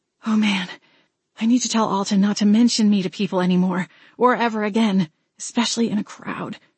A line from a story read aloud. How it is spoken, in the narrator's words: I muttered